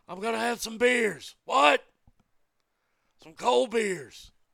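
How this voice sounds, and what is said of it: Imitates another person's voice. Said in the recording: “my Steve Austin impersonation. It's not very good right now ... Like I said, not very good.”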